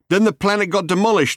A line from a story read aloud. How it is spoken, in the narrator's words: he shouted